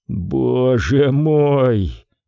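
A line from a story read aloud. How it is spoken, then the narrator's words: Groaned. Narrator (Russian): простонал он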